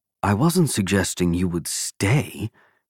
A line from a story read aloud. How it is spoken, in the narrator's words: Godfrey replied